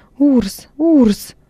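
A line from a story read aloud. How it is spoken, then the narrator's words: Scream. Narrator (Russian): Лигия закричала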